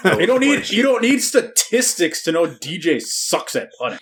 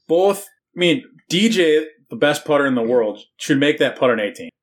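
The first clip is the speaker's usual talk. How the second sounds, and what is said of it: Sarcastic delivery. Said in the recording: “I was being sarcastic.”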